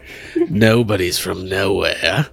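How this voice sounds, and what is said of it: Imitation of the Joker's voice. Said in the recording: “That's a little Joker. ... it's more Joker than”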